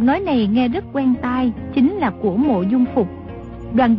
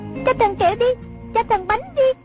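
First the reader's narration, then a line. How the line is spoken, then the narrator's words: Children's pleading chant. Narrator (Vietnamese): Chúng vừa hô vừa lạy, năn nỉ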